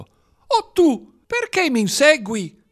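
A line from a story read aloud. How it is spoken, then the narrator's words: Thin surprising shout. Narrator (Italian): Con una voce sottile che sorprese gli astanti, il primo cavaliere gridò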